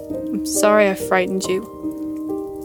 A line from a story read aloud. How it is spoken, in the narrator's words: I muttered